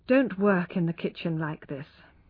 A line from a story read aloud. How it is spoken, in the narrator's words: he said